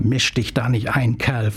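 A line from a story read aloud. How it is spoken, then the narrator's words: Hissing. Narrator (German): fauchte sie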